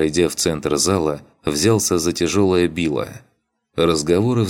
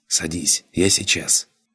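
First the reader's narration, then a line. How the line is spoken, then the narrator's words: Whisper. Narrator (Russian): шепнул ей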